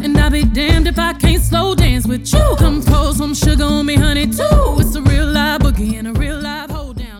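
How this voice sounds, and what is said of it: Singing with a country accent. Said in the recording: “her voice singing with a country accent”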